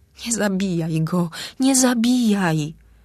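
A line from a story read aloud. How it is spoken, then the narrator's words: Pleading. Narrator (Polish): błagała Welomody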